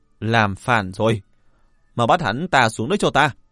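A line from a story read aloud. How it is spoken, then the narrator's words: Furious yell. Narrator (Vietnamese): Sắc mặt của Trịnh Chấp Sự u ám đến cực điểm, hắn gào lên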